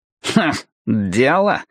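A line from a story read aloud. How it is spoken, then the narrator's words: Snorting. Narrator (Russian): фыркнул Стемпер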